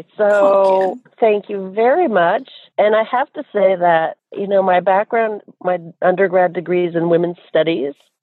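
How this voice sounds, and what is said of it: Choked-up emotional voice. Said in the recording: “little choked up”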